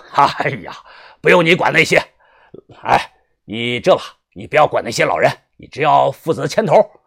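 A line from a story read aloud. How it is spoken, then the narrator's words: Laughing. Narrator (Chinese): 宋老大笑着说道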